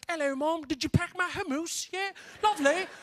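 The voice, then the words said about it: Put-on British accent. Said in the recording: “I had a hint of a British accent.”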